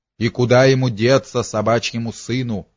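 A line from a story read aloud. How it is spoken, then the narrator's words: Growling. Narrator (Russian): рычал Мирон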